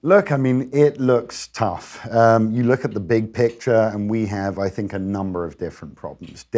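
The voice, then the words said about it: Noticeable non-American accent. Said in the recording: “cool accent.”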